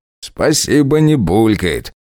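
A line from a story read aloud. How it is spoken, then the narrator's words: Joyless chuckle. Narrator (Russian): невесело хохотнул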